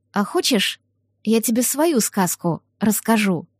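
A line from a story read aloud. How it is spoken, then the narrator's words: Quiet question. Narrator (Russian): тихонько спросила я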